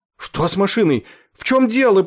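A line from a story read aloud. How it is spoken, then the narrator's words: Shrill cry. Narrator (Russian): пронзительно вскрикнул Кроха Сэмпсон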